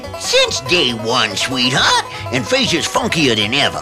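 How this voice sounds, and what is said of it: Old grandpa voice. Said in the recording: “That's pretty good grandpa imitation.”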